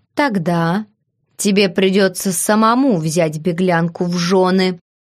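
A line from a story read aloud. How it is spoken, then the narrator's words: Clipped, wounded pride. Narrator (Russian): процедил я, ибо гордость моя была уязвлена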